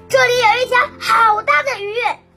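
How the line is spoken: Loud shout. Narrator (Chinese): 有人大喊了一声

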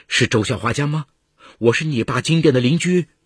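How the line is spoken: Urgent middle-aged woman. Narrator (Chinese): 一个中年女人……声音急促

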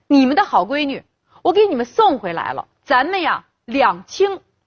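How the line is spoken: Drunken harsh shouting. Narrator (Chinese): 刘金山竟是一点余地都没留，睁着一双醉眼嚷嚷道

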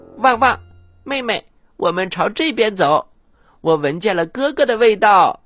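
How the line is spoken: Shouting. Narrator (Chinese): 小东西喊了起来

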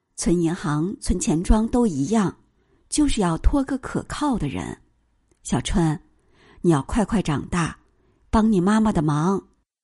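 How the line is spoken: Sighing. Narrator (Chinese): 老师叹口气说

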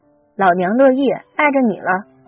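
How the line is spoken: Angry. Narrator (Chinese): 大轩怒了

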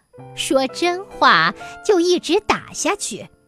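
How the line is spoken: Laughing. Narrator (Chinese): 女郎笑着说

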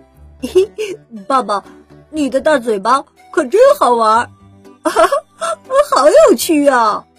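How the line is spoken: Laughing. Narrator (Chinese): 跟着利奥一起笑着

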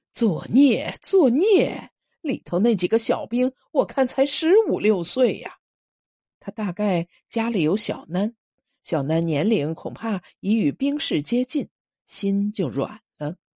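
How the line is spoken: Sighing. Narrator (Chinese): 那个三十多岁的华补摇着头叹

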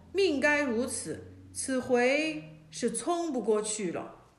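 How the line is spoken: Resigned sigh. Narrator (Chinese): 曹操见状，叹气说

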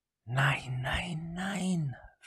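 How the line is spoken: Whisper. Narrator (German): flüsterte sie

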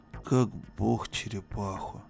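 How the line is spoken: Muttering. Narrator (Russian): пробормотал Иван Иванович

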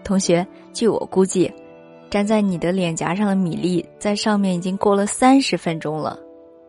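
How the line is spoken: With a slight smile. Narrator (Chinese): 他 带着一点点笑容 忽然就说

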